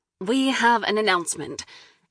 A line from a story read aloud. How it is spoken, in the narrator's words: Natalie exclaimed, practically jumping around the room